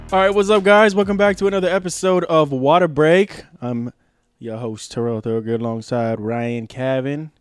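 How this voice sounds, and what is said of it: Auctioneer-style put-on voice. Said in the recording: “What accent was that? ... I was kind of like an auctioneer a little bit.”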